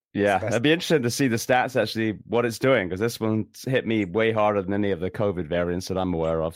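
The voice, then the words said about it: Sick, flu-affected voice. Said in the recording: “I apologize for my voice. I've got the man flu and it's legit.”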